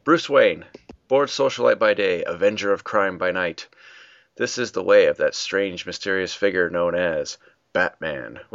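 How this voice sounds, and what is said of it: Slightly hoarse, scratchy voice. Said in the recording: “I kind of have a cold ... now that I'm talking, I feel like I'm losing my voice. So if I'm a little scrackly tonight”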